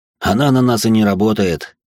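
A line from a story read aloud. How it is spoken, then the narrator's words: Dismissive snort. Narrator (Russian): он хмыкнул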